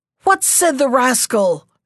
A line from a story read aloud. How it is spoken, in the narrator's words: shouted the angry king